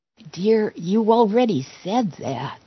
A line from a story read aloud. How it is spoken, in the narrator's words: our spouse whispered